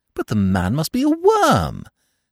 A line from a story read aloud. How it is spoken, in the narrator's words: said Eve indignantly